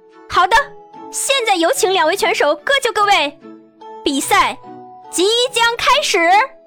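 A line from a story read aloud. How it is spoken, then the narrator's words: Rousing, loud hoarse yell. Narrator (Chinese): 女子依旧用充满煽动性的语调大声嘶吼着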